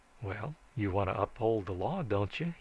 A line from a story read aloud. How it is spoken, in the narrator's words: he said